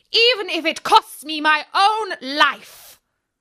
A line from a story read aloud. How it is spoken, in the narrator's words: she cried